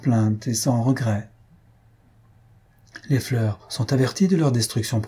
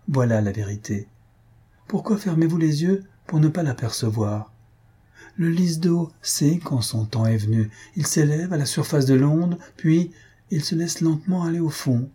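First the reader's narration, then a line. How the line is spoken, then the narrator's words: Brisk, lively. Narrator (French): ajouta-t-elle vivement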